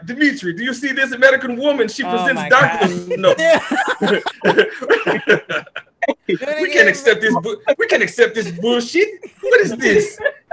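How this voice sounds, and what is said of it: Put-on Russian accent. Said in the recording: “Why your Russian accent is amazing. ... It's amazingly awful. ... That was good ... that was pretty good”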